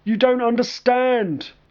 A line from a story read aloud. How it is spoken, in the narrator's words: Colin shouted